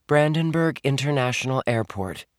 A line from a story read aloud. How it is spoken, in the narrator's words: Amy answered